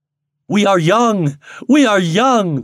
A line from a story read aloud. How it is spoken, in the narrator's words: they cried exultingly